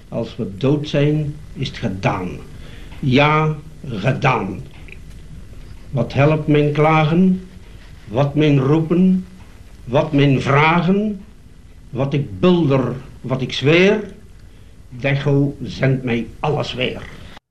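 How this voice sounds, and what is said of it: Light Antwerp accent, lightly delivered. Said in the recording (Dutch): “Licht, lichtjes gedragen ... lichtjes Antwerps accent. Hij kan dat niet wegstoppen”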